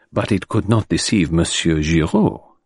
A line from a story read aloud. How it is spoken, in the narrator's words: murmured Poirot